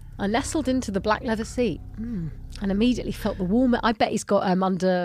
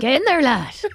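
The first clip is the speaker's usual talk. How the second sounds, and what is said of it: Good rustic farmer accent. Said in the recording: “he sounds like a farmer ... That's such a good accent ... Really good!”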